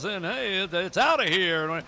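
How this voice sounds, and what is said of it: Baseball announcer voice. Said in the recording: “this baseball voice guy, you know, announcer”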